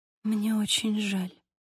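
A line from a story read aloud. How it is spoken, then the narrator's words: Whispered. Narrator (Russian): прошептала Сьюзи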